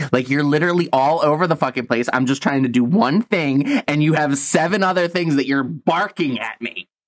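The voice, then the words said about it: Stressed screaming. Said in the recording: “Why are you screaming? ... Because I'm stressed out.”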